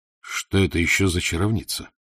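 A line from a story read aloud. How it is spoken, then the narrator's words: Whispered. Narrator (Russian): Алексич прошептал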